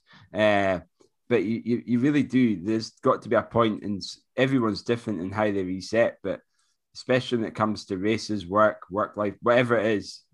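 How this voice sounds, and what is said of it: Voice fading, hoarse. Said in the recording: “I'm losing my voice,”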